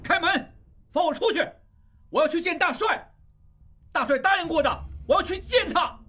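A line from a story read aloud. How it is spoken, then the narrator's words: Angry demanding. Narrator (Chinese): 愤怒地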